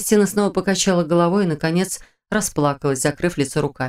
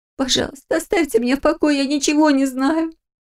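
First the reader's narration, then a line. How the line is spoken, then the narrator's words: Tearful pleading. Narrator (Russian): сквозь слезы попросила она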